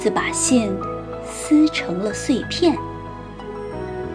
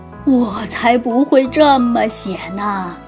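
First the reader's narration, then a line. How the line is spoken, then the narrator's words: Mournful lament. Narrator (Chinese): 狮子哀叹说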